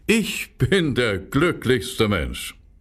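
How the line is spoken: Laughing, singing. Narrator (German): sagte der Schweinehirt, der am Grabenrand saß, lachte und sang

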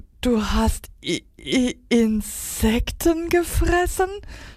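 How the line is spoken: Stutter. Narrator (German): stotterte

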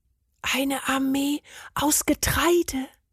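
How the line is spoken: Whisper. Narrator (German): flüsterte Bernd

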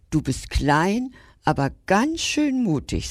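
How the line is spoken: Plain. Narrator (German): sagte der Löwe

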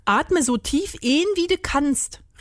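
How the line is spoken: Calling out. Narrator (German): rief Rudi

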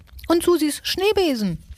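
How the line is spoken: Shouting. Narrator (German): schrie Nagezahn

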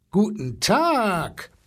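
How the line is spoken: Booming elephant. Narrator (German): polterte der Elefant

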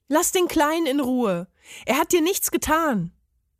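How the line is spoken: Calling out. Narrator (German): rief er dem Parmesan zu

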